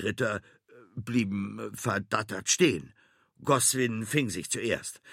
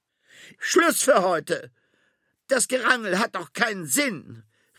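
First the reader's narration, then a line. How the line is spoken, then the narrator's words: Annoyed call. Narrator (German): rief Sabrina Belfortune schließlich genervt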